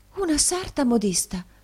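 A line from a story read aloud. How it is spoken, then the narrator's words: Woman exclaiming. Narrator (Italian): esclamò la signora Nickleby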